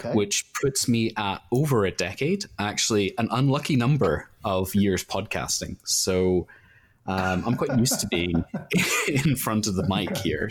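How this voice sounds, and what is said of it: Slight Northern Irish accent. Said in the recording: “there is obviously a touch of Northern Irish, I would say.”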